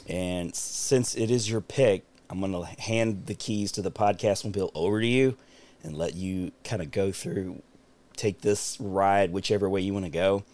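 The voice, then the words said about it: Scratchy voice. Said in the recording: “my voice is a little scratchy, as you can tell.”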